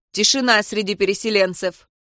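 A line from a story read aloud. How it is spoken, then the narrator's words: Soldier's gruff bark. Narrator (Russian): гаркнул вояка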